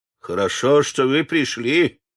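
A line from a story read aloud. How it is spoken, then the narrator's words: Grumbling. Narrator (Russian): проворчал бог товарного вагона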